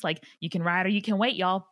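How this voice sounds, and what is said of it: Put-on Southern American accent. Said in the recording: “you picked up a Southern accent. I love it. That is so good.”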